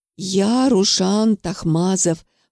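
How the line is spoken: Hissed, spluttering. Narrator (Russian): прошипел парень, в ответ брызгая слюной

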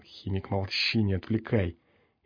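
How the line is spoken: Muttered, cursing quietly. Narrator (Russian): тихо ругаясь, пригоршня пробормотал

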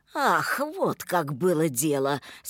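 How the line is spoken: Deep guttural voice. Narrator (Russian): сказал он утробным голосом

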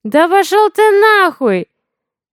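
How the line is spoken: Shrill barking. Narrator (Russian): визгливо гавкает Тайсон

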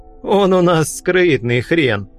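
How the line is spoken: Chuckle. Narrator (Russian): хохотнул философ

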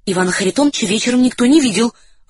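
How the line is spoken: Timid reply. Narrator (Russian): робко ответил старший из офицеров

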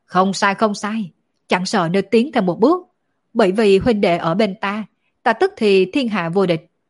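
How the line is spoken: Two voices laughing loudly. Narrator (Vietnamese): Tạ Đan Quỳnh cùng Đổng Vô Thương đồng thời cười to

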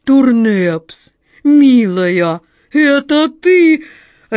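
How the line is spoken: Joyful exclamation. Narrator (Russian): радостно вскинул голову

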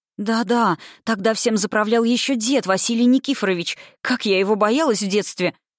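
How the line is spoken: Impatient exclamation. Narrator (Russian): нетерпеливо воскликнула Лядова

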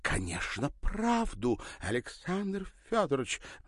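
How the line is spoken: Exclaimed. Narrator (Russian): воскликнула Ирина

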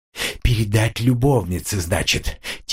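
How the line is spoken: Quiet whisper. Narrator (Russian): тихо прошептал он

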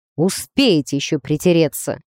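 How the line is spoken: Snorting, suggestive. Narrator (Russian): фыркнул синеглазый

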